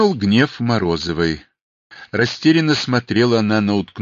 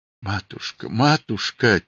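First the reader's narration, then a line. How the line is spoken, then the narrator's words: Quiet mumbling. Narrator (Russian): тихо бормотала она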